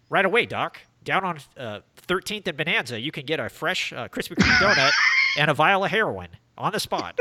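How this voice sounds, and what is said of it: Imitates another person's voice. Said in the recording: “you do an impression of Kit”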